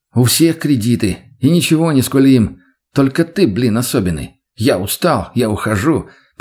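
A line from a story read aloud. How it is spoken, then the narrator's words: Mocking in rattling voice. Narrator (Russian): передразнил его дребезжащим голосом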